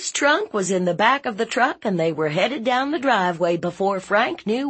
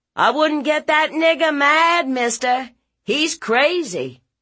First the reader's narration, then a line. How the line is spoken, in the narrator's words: Julian yelled down from the top of the stairs